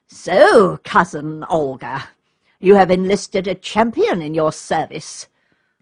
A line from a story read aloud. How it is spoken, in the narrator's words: said Count Vladimir in a sneering tone